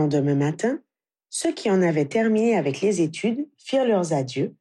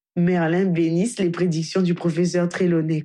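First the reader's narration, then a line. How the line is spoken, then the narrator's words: Hearty laughing. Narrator (French): conclut Hermione en riant franchement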